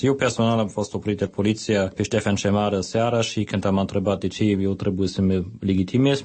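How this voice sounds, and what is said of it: Romanian with foreign accent. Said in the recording (Romanian): “Vorbiți cu accent.”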